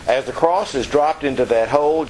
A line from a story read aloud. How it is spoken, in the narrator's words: Jesus cried out